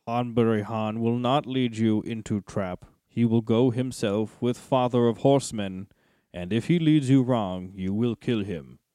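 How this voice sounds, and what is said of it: Hanbury Han character voice. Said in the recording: “Now ... gets to do a Hanbury Han voice... I love that we both got to do a Hanbury Han voice.”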